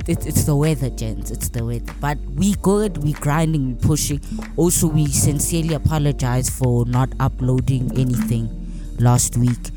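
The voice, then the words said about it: Sick voice with sore throat. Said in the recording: “my voice is a little bit... Your boy is a little bit sick ... I just have a sore throat”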